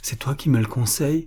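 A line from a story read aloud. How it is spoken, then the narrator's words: Faint, fearful murmur. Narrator (French): murmura Boris, le cœur défaillant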